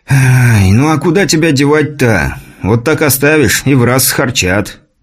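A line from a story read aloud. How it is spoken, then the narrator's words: Exaggerated sigh. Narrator (Russian): нарочито вздохнув, ответил тот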